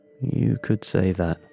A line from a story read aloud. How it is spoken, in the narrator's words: I muttered